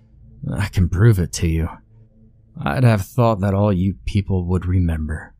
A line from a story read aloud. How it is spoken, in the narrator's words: Sebastian muttered